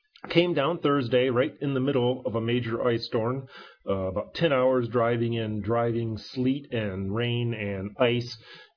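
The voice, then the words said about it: Congested, sniffly voice. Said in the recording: “apologize for my voice. I have come down with a bit of a sinus migraine and sniffles, so I really apologize for the voice quality”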